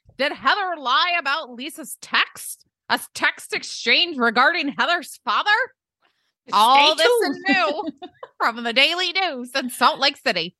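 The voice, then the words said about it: Old-timey newsboy voice, bad accent. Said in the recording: “I don't know what that voice was. ... it's your old-timey voice. It's a Scoops McCallahan, see? ... extra, extra. ... That's a bad accent.”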